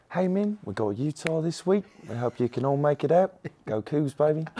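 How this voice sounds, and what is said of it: Impersonated Korg character voice. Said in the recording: “your Korg impersonation... Never disappoints.”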